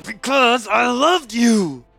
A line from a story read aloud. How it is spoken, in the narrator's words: he answered through clenched teeth